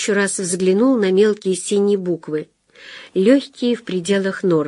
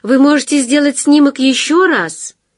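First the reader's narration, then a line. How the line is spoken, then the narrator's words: Shouting after someone. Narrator (Russian): прокричала ему вслед женщина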